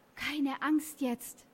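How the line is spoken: Whisper. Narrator (German): flüsterte er

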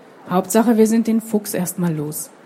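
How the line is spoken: Sighed. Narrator (German): seufzte Molle

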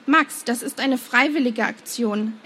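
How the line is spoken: Sharp admonition. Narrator (German): ermahnte er ihn scharf

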